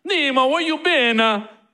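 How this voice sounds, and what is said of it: Put-on Italian accent. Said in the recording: “Italian accent. We used to try and have a conversation in different accents.”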